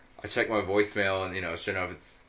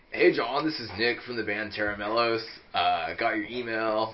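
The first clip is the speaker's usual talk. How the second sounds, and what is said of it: Bad impression, Northern California accent. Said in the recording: “That's a bad impression of him ... that's a Northern California accent for sure”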